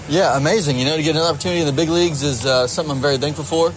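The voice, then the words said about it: Southern US Georgia accent. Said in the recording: “From your wonderful accent, you're from the South, you're from Georgia ... as you can hear from my accent, I'm very much proud of my Georgia roots.”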